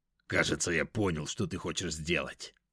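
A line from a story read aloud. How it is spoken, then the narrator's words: Dragon's growl. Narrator (Russian): рыкнул дракон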